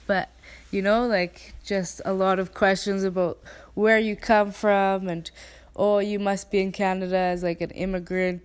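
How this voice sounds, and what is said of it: Canadian English accent. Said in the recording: “my Canadian accent”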